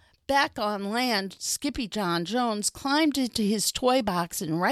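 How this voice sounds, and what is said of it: Usual voice. Nothing is said of it.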